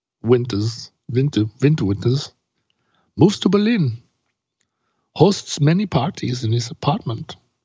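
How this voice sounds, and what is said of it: Poor put-on German accent. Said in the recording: “It's a terrible German accent.”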